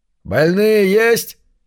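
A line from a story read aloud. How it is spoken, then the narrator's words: Fisherman shouting from afar. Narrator (Russian): издали кричал рыбак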